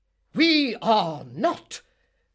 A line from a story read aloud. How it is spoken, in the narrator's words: roared Mr